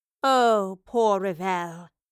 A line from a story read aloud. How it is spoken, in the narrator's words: the Professor mockingly groaned